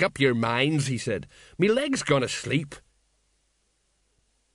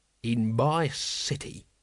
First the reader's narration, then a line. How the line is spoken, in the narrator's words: he growled